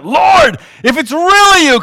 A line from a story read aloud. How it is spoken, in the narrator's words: Peter shouted out